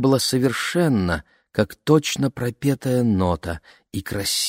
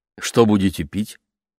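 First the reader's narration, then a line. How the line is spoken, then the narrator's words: Plain. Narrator (Russian): спросил он маму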